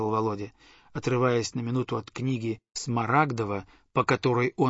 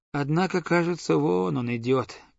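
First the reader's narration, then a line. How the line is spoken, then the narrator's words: Sad voice. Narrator (Russian): прибавил я печальным голосом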